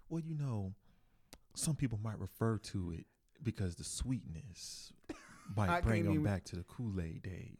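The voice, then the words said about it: Smooth radio DJ voice. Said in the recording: “I can't get out the radio voice. ... It's the voice”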